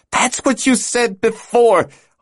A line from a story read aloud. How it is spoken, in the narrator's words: Hala exclaimed, her frustration evident